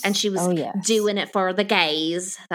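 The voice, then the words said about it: Terrible put-on Southern accent. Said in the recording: “That was a terrible Southern accent, honey”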